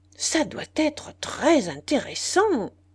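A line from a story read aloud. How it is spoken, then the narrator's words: Exclaiming. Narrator (French): s'écria M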